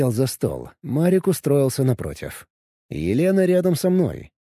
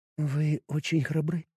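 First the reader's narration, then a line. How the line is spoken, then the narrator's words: Quiet. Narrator (Russian): сказала она тихо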